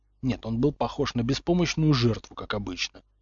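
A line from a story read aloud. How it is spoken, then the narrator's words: Muttered under breath. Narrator (Russian): пробормотал Поттер себе под нос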